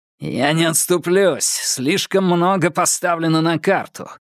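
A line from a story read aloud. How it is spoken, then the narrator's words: Through gritted teeth. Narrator (Russian): процедил Домбровский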